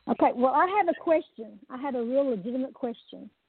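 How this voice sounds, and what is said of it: Twangy Oklahoma accent. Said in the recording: “Miss Twang ... I admire your accent”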